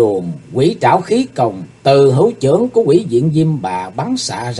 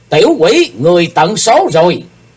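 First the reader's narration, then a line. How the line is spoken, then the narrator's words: Shrill shout through grinding teeth. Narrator (Vietnamese): Ngọc Diệm Diêm Bà nghiến răng trèo trẹo, lãnh lót hét lên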